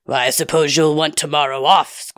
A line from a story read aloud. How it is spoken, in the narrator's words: Squatch growled